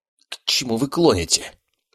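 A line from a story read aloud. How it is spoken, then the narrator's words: Hoarse wheeze. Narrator (Russian): просипел он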